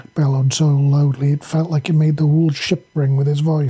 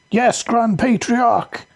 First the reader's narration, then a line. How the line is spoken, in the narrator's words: the whole bay yelled in perfect unison